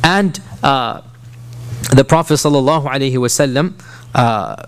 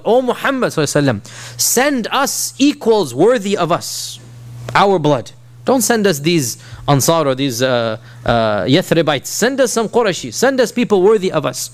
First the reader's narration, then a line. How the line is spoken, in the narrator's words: they called out, called out